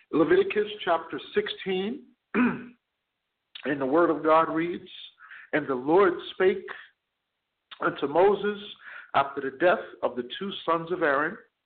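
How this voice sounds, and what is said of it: Hoarse, fading voice. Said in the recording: “losing my voice a little bit ... losing my voice a little bit. Bear with me.”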